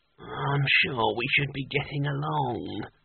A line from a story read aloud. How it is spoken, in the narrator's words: he muttered without much conviction